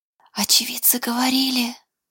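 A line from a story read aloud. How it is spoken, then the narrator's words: Whisper. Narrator (Russian): Шепотом произнес Даниэль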